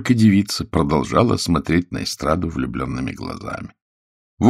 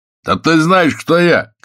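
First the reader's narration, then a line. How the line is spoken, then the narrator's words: Man shouting. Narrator (Russian): крикнул мужик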